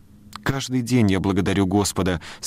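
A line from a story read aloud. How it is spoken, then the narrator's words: Plain. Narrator (Russian): сказала миссис Коуп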